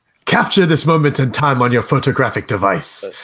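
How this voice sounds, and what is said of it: Vague foreign accent, over-formal voice. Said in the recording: “With the accent of an indeterminate background.”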